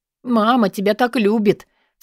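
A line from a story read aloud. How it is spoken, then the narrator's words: Sobbing. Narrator (Russian): всхлипываю я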